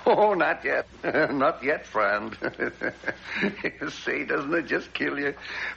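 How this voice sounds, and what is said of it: American Wyoming accent. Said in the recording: “Me with my Wyoming accent,”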